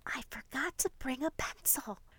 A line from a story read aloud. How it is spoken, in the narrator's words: She quietly tells Gracie